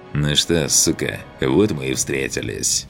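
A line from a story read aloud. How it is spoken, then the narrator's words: Growl right into ear. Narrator (Russian): прорычал знакомый голос в самое ухо Миланы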